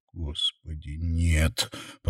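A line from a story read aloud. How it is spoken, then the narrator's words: Groaning. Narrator (Russian): простонал Сэм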